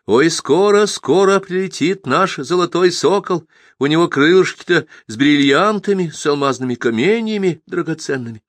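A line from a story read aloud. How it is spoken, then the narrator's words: High pleasant singing, slight wail. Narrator (Russian): Ефимьюшка запела высоким приятным голосом, слегка подвывая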